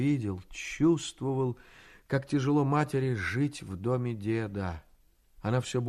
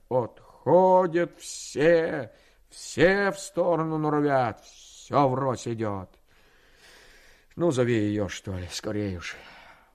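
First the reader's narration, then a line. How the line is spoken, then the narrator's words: Loud angry speech. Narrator (Russian): сказав громко, сердито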